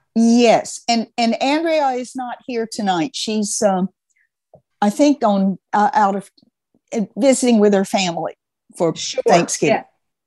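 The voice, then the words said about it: Southern American accent. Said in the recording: “are you from the South? You have sound like a Southern accent ... I live in Alabama”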